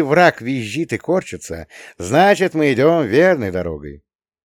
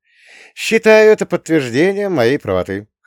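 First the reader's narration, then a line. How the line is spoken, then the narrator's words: Chuckled. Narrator (Russian): хохотнул я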